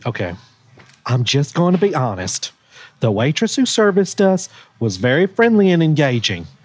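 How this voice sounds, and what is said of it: Reads aloud in a funny voice. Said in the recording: “read bad reviews of this restaurant in a funny voice”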